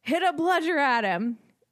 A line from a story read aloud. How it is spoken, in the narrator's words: Harry yells